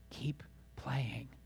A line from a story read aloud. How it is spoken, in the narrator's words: the great piano master whispered in the boy's ear